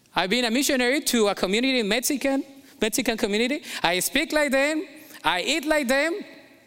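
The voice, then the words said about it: Colombian accent in English. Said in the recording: “I'm not going to get rid of my accent because that's part of my heritage. Colombian.”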